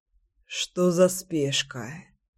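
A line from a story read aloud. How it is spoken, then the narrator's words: Sleepy mumble. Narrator (Russian): сонно пробормотал Кирюша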